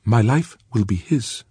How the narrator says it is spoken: she said

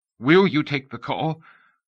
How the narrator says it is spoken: The voice was choked with tension

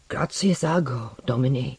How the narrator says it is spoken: muttering

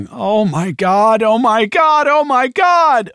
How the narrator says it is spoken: someone was screaming

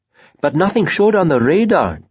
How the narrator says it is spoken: informed excitedly

